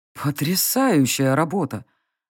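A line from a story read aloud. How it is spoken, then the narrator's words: Sudden breathy exclamation. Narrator (Russian): неожиданно выдохнул усач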